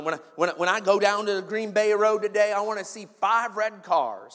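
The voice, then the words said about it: Put-on Southern American accent. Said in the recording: “I don't know why I'm going Southern accent here.”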